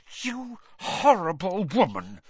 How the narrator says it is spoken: she said through gritted teeth

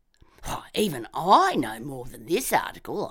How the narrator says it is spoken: I scoffed

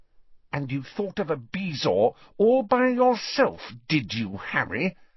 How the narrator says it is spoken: she asked through gritted teeth

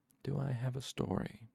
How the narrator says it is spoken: He spoke very quietly

